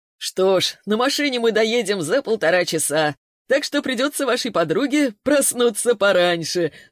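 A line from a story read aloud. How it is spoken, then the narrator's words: Laughing. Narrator (Russian): засмеялся Богатов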